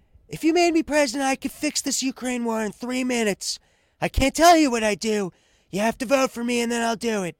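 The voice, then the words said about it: Imitates another person's voice, poorly. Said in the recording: “It's the worst Trump impression I've done yet.”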